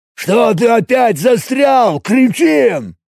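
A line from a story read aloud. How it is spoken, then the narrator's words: Spluttering bark. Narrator (Russian): Снова рявкнул Большой Глаз, брызнув на него слюной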